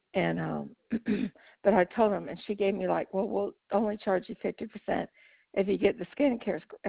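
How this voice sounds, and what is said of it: Raspy voice. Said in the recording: “I got my allergies are bothering me. I'm raspy.”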